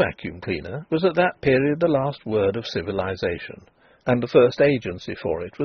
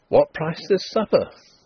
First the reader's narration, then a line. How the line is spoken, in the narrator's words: Denry exclaimed